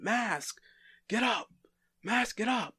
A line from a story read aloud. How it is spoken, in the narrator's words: he's yelling